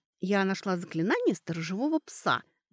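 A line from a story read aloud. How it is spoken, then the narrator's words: Joyful blurt. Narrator (Russian): выплела она радостно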